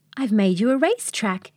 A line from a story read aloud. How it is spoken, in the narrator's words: exclaimed Tucker